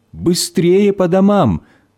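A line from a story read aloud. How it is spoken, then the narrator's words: Distant shouting. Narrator (Russian): родители, они еще издалека кричали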